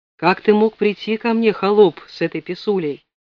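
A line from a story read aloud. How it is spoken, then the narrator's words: Calm question. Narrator (Russian): спокойно спросил Федоров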